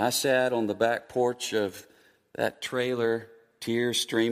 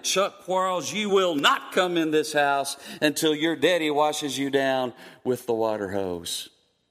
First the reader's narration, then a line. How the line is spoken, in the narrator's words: shouted from behind it